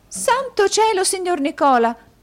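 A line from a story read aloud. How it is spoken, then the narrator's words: Exclaiming. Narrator (Italian): esclamò la signorina Lacrivi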